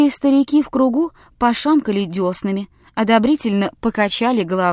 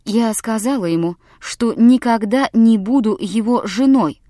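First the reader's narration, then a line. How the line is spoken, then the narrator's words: Plain. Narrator (Russian): сказала Элсу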